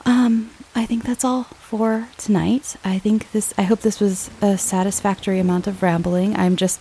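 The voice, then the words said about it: Slightly shaky, recovering voice. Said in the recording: “My voice is still a little shaky ... it's like my voice is healing”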